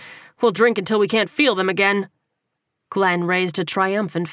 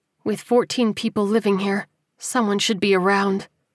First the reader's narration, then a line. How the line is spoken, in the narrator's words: Susanna said quietly